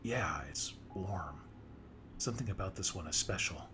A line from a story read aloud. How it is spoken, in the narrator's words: I replied